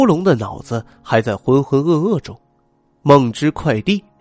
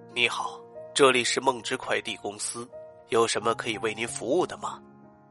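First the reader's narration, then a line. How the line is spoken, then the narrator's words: Hoarse man, kindly asking. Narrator (Chinese): 一个沙哑的男人声音，亲切的问道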